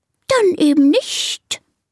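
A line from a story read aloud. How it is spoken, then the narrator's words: Offended hiss. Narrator (German): zischt die Schlange beleidigt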